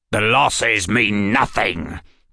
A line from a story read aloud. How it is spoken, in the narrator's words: the goblin answered with a growl